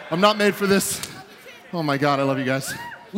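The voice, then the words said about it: Out of breath, winded. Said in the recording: “He's going to be so winded ... I'm out of breath. ... Yeah, you're out of breath ... while ... catches his breath”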